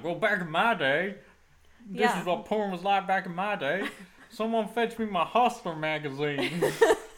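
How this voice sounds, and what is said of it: Put-on Southern American accent. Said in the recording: “my partner can only do a Southern accent to mimic American, so that's what's happening here”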